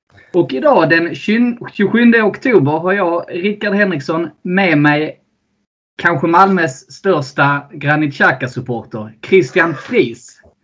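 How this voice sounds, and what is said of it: Scanian Swedish accent. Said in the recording (Swedish): “Podden där vi snackar högt och lågt om Arsenal på skånska.”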